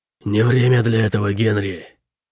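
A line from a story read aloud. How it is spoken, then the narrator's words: Growled. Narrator (Russian): Прорычал Шип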